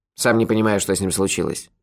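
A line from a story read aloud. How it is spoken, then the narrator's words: Grumbled. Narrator (Russian): проворчал Мохи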